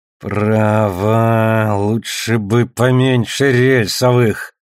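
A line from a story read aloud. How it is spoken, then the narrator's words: Through gritted teeth. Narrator (Russian): сквозь зубы процедил Алекс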